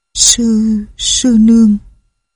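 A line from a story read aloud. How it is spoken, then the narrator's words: Soft call. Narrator (Vietnamese): Lệnh hồ sung gọi khẽ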